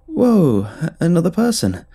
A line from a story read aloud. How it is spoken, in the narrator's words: exclaimed, hoping to sidestep the awkwardness